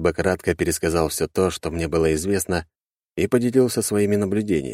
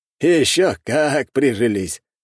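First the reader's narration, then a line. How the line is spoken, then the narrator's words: Happy, smiling. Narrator (Russian): радостно улыбнулся Хрулёв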